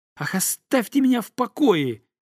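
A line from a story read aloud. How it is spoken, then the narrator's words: Shout. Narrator (Russian): закричал он на горничную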